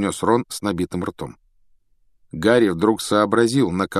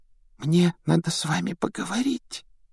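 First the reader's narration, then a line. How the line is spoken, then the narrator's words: Embarrassed whisper. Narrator (Russian): прошептала она смущенно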